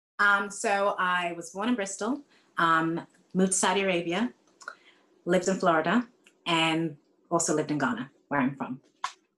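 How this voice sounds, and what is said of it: Slightly American Ghanaian British accent. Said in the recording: “the slightly American Ghanaian British accent”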